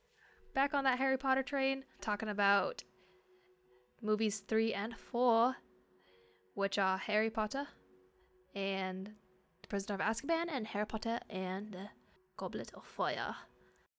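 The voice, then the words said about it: Poor put-on British accent. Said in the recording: “my poor attempt at a British accent... 3 out of 10... It was a shit British accent.”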